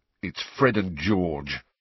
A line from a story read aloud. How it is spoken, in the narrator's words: he said bitterly